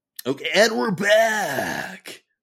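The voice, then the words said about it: Shock jock radio voice. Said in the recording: “my like shock jock radio voice”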